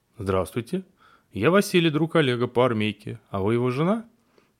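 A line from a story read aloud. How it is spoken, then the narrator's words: Cheerful, brisk voice. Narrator (Russian): Бодрым голосом начал Василий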